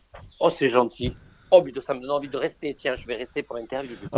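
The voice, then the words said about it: Southern French Var accent. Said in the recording (French): “quand on t'entend, oh là, on a du soleil dans la tête ... l'accent de chez moi, de Riance dans le Var ... ça ressemble pas, vraiment pas à un accent parisien”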